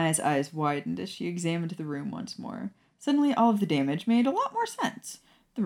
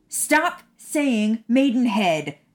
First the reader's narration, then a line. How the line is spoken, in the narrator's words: Maya shrieked